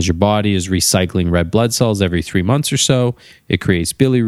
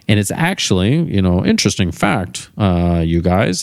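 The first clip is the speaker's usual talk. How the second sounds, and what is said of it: Imitates a TV character's voice. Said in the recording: “my Cliff Clavin impersonation from those who watch Cheers”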